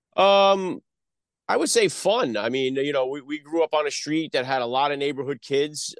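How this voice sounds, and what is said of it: Northeastern US accent, New York/New Jersey. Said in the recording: “he's saying New England. ... I'm born in the Bronx, New York. I grew up in North Jersey. So I guess it's a potpourri of the, you know, the Northeast accent”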